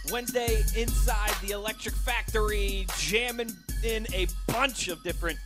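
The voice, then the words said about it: Put-on Pittsburgh Yinzer accent. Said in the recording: “Pittsburgh accent ... get Yinzer”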